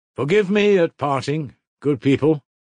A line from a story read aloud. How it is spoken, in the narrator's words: shouted suddenly from the cart